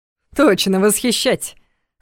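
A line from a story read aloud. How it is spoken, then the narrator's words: Chuckling. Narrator (Russian): хохотнул Дементьев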